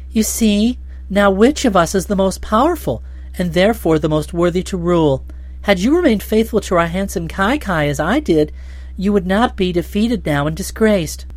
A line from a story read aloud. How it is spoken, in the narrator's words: the green-robed High Kai laughed in her face, saying